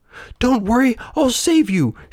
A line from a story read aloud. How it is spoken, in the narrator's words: shouted the brave puppet